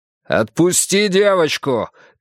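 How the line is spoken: Shouted. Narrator (Russian): крикнул Йона

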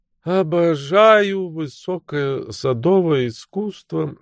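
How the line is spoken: Sleepy countess. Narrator (Russian): сонным голосом промолвила графиня

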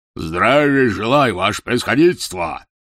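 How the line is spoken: Deafening bark. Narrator (Russian): гаркнул он оглушительным голосом

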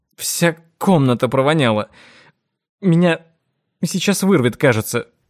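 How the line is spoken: Strained, nauseated. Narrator (Russian): выдавила Джорджия

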